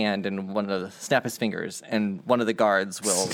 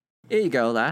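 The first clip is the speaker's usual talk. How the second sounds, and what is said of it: Put-on Irish accent drifting Scottish. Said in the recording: “Scottish... It's not Scottish. It's supposed to be Irish... It's just easy to switch into Scottish”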